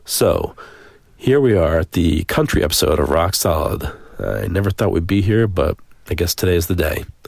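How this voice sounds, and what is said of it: Deep, congested voice with a cold. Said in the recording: “out in the germ-infested woods of Western Mass ... when I get a cold and a deep voice”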